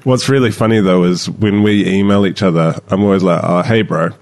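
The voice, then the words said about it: New Zealand accent. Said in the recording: “you're not from New Zealand, are you? ... as far as the accent ... I keep forgetting that I have an accent”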